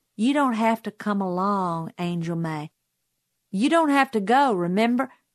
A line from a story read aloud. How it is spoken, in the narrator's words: he said sweetly